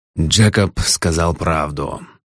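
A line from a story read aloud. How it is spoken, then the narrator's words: Gloomy. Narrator (Russian): мрачно произнес Бакнер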